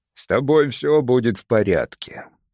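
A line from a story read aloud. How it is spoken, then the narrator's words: Rumbling voice. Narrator (Russian): произнес капитан ракочущим голосом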